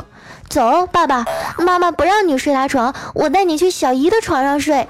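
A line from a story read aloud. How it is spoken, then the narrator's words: Indignant little girl. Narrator (Chinese): 被三岁的女儿看到了，就义愤填膺的和我老公说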